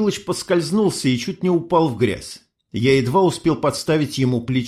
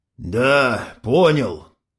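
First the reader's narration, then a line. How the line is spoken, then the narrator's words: Mumbling. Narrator (Russian): бормочет Егор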